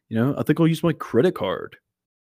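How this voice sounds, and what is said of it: Exaggerated put-on American accent. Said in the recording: “Just like an American accent to, like, a British person would be like this.”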